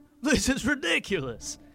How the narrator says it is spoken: chuckled to himself

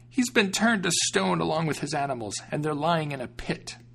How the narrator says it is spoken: Since she was terribly frightened, she begged for mercy and said

